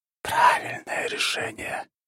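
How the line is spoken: Soft inner whisper. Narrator (Russian): легкий шепот в голове

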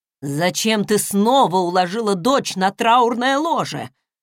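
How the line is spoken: Deep booming male voice. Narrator (Russian): прогудел мужчина с аккуратной бородкой

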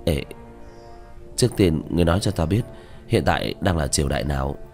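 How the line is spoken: Reluctant, trembling lips. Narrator (Vietnamese): Diệp Thiếu Dương khóe miệng run rẩy, miễn cưỡng có lệ đang tràn xuống mà nói

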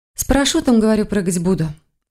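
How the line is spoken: Forced cheerful reply. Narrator (Russian): ответила она, пытаясь не показывать, что на самом деле ей совсем не весело

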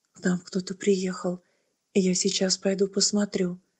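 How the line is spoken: Quiet. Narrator (Russian): Адриан тихо сказал матери

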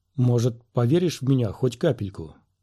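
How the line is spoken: Gentle retort. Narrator (Russian): ласково парировал Квай-Гон

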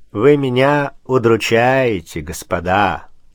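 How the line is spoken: Calm, mocking. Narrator (Russian): сказал спокойно и насмешливо

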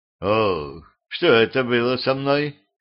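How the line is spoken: Groaning king. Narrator (Russian): простонал король

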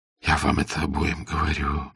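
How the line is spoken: Constant whispering. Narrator (Russian): беспрестанно шептал

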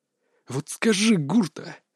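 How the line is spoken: Through gritted teeth. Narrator (Russian): процедил крепыш

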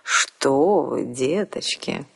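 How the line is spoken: Honeyed cooing voice. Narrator (Russian): медовым голосом проворковал

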